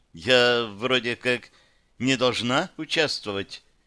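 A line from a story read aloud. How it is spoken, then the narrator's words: Uncertain explanation. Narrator (Russian): неуверенно пояснила Потемкина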